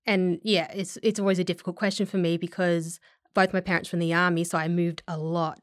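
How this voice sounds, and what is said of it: Mixed regional Australian accent. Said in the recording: “my accent comes from a lot of different places in Australia ... it's not just the Welsh and the Dutch side. It's also all the different intonations of the different states ... It sounds a little bit like Brisbane, Northern Territory, kind of a mixture of, you know, certain parts of Adelaide”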